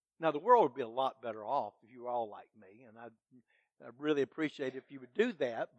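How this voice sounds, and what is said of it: Sarcastic tone. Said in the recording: “that was sarcasm”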